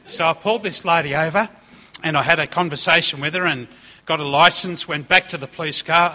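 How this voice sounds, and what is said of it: Strong regional accent. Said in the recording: “if you're finding my accent hard”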